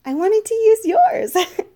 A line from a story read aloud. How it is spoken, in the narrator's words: she giggled